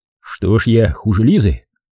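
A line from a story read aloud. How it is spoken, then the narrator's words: Smirking grunt. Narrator (Russian): хмыкнул Иванов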